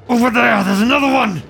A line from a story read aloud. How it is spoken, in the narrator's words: He shouts